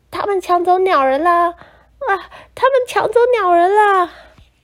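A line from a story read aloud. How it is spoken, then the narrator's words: Realizing, loud cry. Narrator (Chinese): 两个女人恍然大悟，于是大叫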